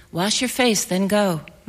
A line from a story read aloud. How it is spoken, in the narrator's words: my mother said